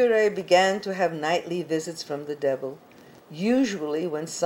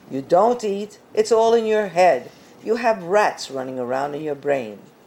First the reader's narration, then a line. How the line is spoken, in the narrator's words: Annoyed, one priest snapped